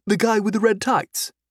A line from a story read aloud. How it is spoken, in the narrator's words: Clive said